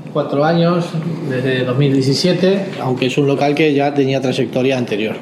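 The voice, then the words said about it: Argentine Spanish accent. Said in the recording (Spanish): “el acento así como argentino ... somos argentinos”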